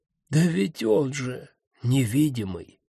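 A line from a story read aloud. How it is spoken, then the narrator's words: Dejected voice. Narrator (Russian): упавшим голосом сказал Таункрахт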